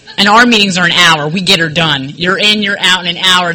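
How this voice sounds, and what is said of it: New Jersey accent. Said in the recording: “I got sober in Jersey. This isn't a California accent”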